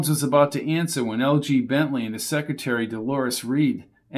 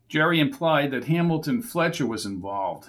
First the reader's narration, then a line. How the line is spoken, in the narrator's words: said Gallagher